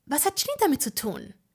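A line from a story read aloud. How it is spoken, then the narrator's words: Sharp question. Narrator (German): fragte scharf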